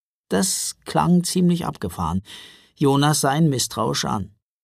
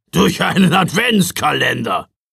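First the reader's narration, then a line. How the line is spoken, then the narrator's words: Gruff blustering. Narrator (German): polterte Knecht Ruprecht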